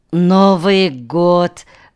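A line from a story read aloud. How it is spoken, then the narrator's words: Sigh. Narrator (Russian): вздохнул Нанук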